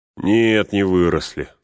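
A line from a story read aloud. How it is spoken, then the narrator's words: Sighing. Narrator (Russian): вздохнул Пин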